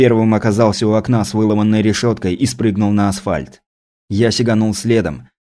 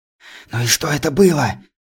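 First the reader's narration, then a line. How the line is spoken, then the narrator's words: Breathless whisper. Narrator (Russian): прошептал я, пытаясь отдышаться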